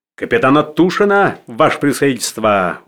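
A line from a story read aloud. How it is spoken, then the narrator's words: Cheerful shout. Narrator (Russian): закричал веселым голосом рыжий с покрытым веснушками лицом Фейерверкер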